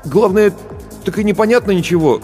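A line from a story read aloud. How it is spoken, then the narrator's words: Bewildered. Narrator (Russian): растерянно произнес Барботько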